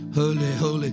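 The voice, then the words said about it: Mock British movie accent. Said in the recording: “like the British movies ... in a British accent”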